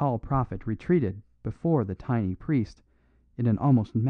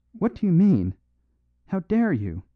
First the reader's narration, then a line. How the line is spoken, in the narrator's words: he cried repeatedly